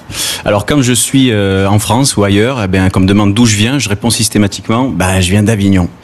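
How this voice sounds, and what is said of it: Southern French Gard accent. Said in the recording (French): “j'ai l'accent du Sud ... tu as l'accent du Gard”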